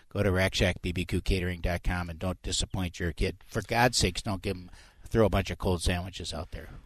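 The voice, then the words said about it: Minnesotan accent. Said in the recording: “You sound like a straight Minnesotan... oh, I'm from Minnesota.”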